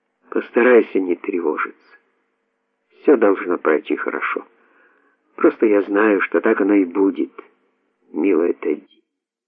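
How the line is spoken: Calm, deeply heartfelt. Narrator (Russian): спокойно, но глубоко проникновенно произнесла

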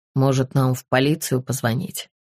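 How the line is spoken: Plain. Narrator (Russian): спросил Тристан

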